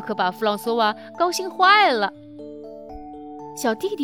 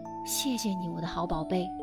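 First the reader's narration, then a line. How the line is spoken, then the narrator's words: Gentle whisper. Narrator (Chinese): 妈妈温柔地 在他耳边轻声说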